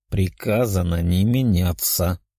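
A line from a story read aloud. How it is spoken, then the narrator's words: Grumbling. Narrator (Russian): проворчал Денис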